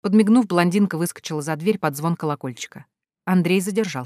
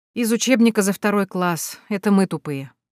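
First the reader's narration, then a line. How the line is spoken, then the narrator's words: Woman sighing. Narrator (Russian): вздохнула блондинка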